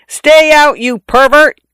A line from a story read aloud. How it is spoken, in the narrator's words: I yelled in a voice not mine